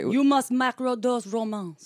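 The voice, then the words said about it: Fake French accent. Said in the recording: “I'm not going to do a fake French accent because I'm terrible at it. ... I can do it.”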